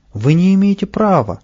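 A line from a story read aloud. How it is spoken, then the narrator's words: Shouting. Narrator (Russian): И Павлик закричал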